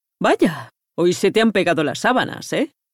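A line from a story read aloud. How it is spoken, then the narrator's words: Laughing. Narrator (Spanish): rió el señor Schmidt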